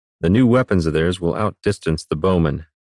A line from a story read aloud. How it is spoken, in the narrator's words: Brennus said flatly